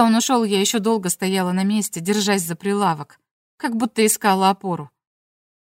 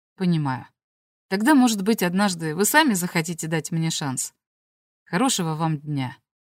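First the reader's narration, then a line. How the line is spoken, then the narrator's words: Gentle, smiling. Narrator (Russian): не выказывая разочарования, улыбнулся мягко и сказал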